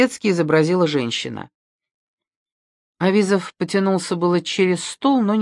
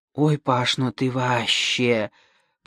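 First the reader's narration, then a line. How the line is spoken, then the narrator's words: Whisper. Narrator (Russian): прошептала Тамара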